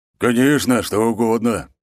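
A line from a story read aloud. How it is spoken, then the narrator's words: Deep bass voice. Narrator (Russian): пробасил он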